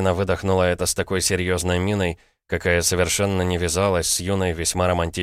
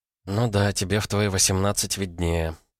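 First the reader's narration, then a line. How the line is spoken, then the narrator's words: Muttered. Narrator (Russian): пробормотала Ира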